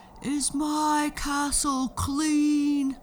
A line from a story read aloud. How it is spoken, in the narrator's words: the giant would yell